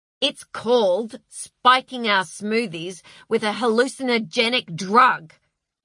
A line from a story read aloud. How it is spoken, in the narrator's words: snapped Heather